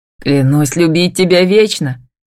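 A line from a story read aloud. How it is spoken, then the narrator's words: Hoarse exclamation. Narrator (Russian): хрипло восклицает он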